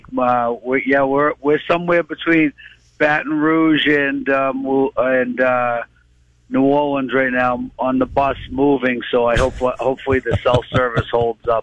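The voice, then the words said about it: Boston accent. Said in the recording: “If people want to hear a Boston accent, just soak in Ken Casey. Ken Casey's got the Boston accent.”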